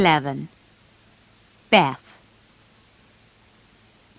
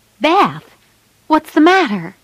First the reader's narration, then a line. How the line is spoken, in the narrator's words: cried